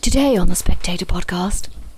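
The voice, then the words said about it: Close-mic impression of Laura Prendergast. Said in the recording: “maybe I should be like her from The Spectator... I should talk like that... Be like Laura Prendergast... You have to say it really close to the mic. It has to be ridiculous.”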